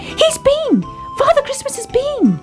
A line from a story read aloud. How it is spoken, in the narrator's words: cried Baby Ted